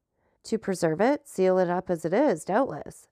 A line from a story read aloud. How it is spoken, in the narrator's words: said the procureur